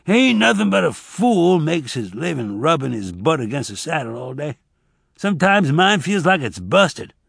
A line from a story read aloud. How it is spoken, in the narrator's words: Frog groaned, and then he said